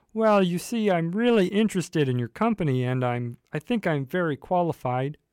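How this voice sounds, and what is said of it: Kermit the Frog character voice. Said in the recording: “do my phone interview tomorrow in a weird accent ... as Kermit the Frog”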